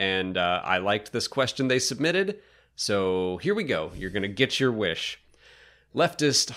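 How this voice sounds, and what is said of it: Usual voice. Nothing is said of it.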